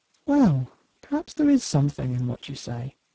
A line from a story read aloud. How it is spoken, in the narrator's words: murmured the doctor